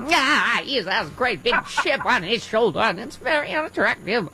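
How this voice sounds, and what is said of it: Katharine Hepburn impression. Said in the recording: “I do my Katherine Hepburn ... that's a good Kate.”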